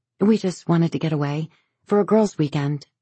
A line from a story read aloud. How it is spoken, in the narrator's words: she says